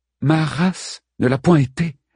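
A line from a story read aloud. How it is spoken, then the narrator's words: Calm, composed reply. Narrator (French): répondit Penthésilée d'une voix posée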